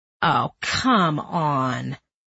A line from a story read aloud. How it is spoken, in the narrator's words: Greg groaned